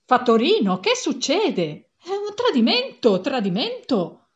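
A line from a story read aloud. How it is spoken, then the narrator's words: Gentleman shouting. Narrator (Italian): Un signore si mise a gridare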